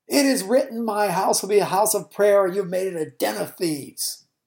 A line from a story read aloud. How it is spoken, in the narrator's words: Jesus shouting